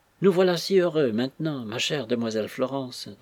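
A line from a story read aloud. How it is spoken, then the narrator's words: Sighing, doubtful happiness. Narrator (French): dit Suzanne, en poussant un soupir qui pouvait faire douter de son bonheur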